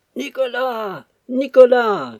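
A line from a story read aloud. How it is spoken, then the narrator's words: Shouting. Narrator (French): criait-elle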